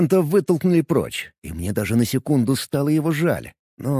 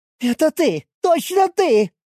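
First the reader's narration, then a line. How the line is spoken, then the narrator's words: Shouting. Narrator (Russian): прокричала Паста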